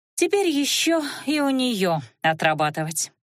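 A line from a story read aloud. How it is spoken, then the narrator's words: Sorrowful sigh. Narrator (Russian): горестно вздохнула Лана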